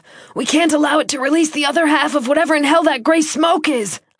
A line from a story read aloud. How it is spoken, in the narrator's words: I shouted, my voice hoarse